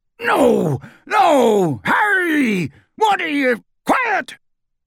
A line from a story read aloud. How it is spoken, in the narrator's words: shouted Raoul